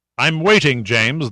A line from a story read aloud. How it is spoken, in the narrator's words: the old man said, his voice commanding